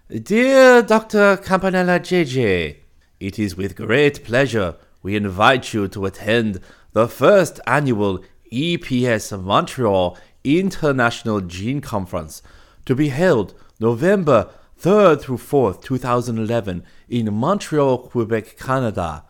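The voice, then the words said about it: Silly put-on accent. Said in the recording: “employ a silly accent”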